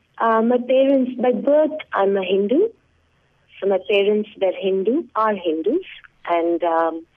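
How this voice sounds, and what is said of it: Indian accent. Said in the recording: “are you of Indian descent? I mean, obviously the accent might say so”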